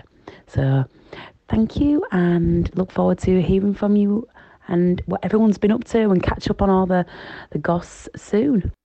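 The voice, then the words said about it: Leeds English accent. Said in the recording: “the most Leeds girl I've ever heard... It's gorgeous accent. Gorgeous.”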